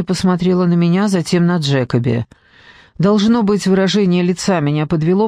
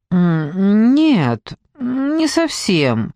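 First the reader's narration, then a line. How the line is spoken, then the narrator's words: Unsure mumble. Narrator (Russian): промямлила я неуверенно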